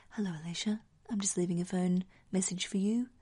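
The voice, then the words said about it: Creepy put-on voice. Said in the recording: “in a creepy voice.”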